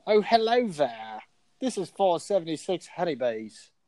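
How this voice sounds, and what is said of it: Put-on Australian accent. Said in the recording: “Get out your Australian accent”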